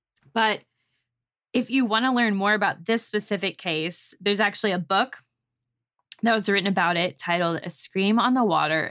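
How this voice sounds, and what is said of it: Strained, fading voice. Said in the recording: “apparently I'm losing my voice because I have not spoken all day”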